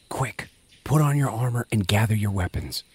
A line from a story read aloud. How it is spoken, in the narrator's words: whispered